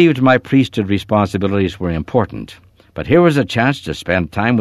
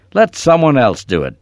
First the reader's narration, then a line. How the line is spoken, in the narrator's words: sneered